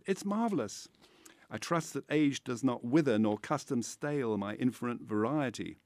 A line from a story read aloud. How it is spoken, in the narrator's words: said in his voice the joy and pride which the artist takes in his own creation